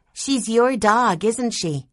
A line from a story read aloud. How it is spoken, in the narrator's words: Jessie asked in a loud, clear voice